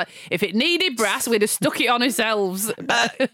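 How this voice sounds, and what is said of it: Imitation in a northern English accent. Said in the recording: “I'll do it in a northern accent because this is what it sounds like”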